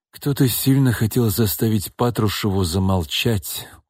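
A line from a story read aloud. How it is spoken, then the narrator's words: Tired explaining. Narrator (Russian): устало пояснил Данил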